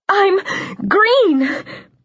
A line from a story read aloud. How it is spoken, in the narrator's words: I sobbed, the words half lost to the machine's buzzing